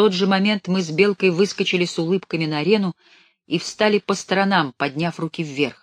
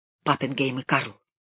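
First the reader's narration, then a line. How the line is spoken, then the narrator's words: Hurried whisper. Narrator (Russian): шепнул в торопях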